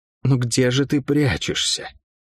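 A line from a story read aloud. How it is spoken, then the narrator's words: Cursed woman whispering. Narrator (Russian): прошептала проклятая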